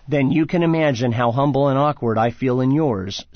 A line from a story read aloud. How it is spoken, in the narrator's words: said Churchill